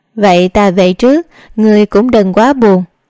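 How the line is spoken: Awkward laugh then speech. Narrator (Vietnamese): Đường Thư Bạch lúc này mới nhận ra sự đắc ý của mình làm tổn thương đến kẻ thất tình, cười lớn hai tiếng, nói

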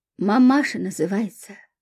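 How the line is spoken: Grumbling. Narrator (Russian): ворчал таксист

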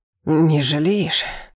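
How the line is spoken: Breathless moan. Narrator (Russian): простонал он, тяжело дыша

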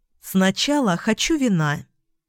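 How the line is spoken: Plain. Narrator (Russian): сказала Эльга

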